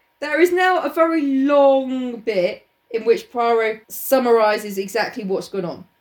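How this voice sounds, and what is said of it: Usual voice. Nothing is said of it.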